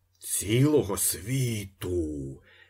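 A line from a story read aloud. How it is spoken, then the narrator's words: Stunned group groaning. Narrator (Ukrainian): застогнали приголомшені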